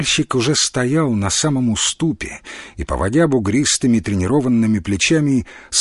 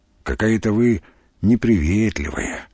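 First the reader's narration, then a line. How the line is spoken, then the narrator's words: Sigh. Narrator (Russian): вздохнул Тимофей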